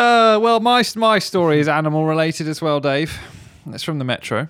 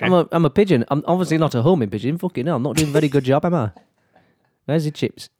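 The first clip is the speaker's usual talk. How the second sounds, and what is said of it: Put-on Yorkshire accent. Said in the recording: “an accent like this ... you're a long way from Yorkshire”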